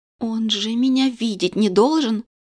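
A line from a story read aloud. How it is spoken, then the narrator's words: Frightened muffled whisper. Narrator (Russian): Не отнимая дрожащие руки от губ, испуганно прошептала я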